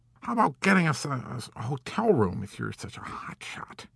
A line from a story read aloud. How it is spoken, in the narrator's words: Orr grumbled impertinently in a voice slurred with fatigue